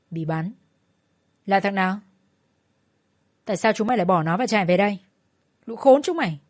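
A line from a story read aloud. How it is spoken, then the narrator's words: Harsh, angry. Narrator (Vietnamese): Long gằn giọng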